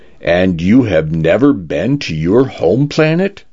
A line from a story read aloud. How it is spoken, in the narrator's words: Dave asked